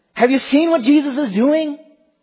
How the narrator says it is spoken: children are running here and there throughout the temple shouting

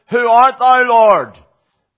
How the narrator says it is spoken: he cried out

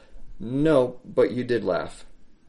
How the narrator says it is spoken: The Lord of glory calmly, simply, understandingly, and gently replied

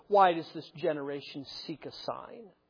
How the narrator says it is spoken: he sighed deeply in his spirit and said

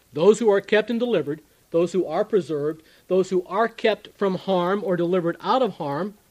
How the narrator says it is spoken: he says

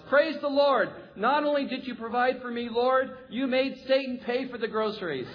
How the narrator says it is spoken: The lady smiles and she shouts

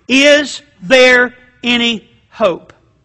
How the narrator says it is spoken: it came out very slowly

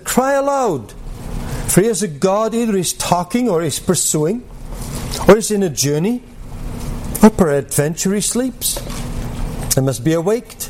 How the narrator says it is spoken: Elijah mocked them and said

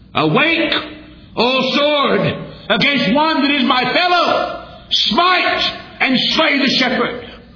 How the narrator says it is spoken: justice cried

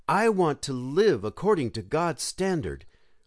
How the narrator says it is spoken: exclaim

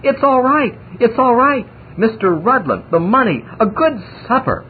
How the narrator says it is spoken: cried breathlessly

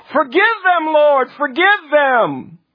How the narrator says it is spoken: cried out

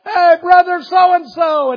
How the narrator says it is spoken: somebody hollered

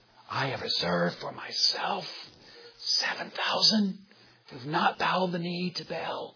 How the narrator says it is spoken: whispers

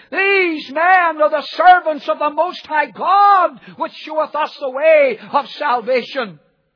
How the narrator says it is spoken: cried, saying

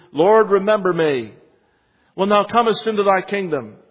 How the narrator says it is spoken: One cried

